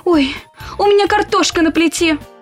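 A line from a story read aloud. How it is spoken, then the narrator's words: Shouted. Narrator (Russian): крикнула мама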